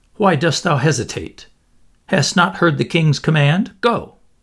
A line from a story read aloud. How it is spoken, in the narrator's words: Tom Canty said sharply